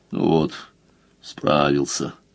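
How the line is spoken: Tired. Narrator (Russian): Сказал устало

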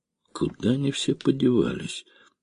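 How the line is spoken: Puzzled muttering. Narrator (Russian): пробормотал таксист, недоуменно

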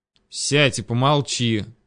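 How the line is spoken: Growled. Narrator (Russian): рыкнул я на него

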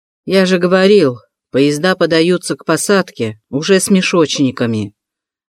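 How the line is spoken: Grumbling. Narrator (Russian): ворчал бурмейстер

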